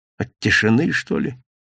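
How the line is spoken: Guilty, smiling. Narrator (Russian): с непохожей на него виноватой улыбкой сказал

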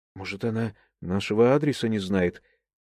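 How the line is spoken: Timid wife's suggestion. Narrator (Russian): робко предположила супруга

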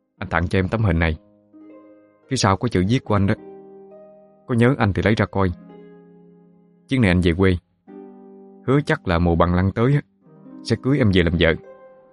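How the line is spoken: Gentle. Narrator (Vietnamese): nhẹ nhàng nói

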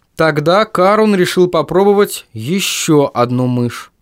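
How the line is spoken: Plain. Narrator (Russian): сказал Марк

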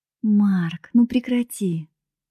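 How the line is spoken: Gentle request. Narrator (Russian): мягко попросила я

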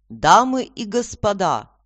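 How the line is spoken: Booming announcement. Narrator (Russian): распорядитель зычным голосом объявил

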